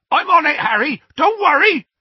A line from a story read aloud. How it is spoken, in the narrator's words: Hagrid yelled